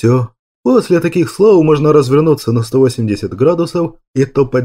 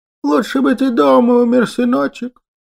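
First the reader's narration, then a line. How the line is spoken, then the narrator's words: Convulsive sobbing. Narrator (Russian): Послышалось судорожное рыдание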